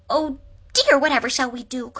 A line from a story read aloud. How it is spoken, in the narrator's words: cried Aunt Dorothy